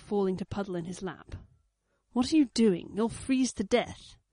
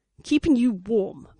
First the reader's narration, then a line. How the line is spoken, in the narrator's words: Blake snapped out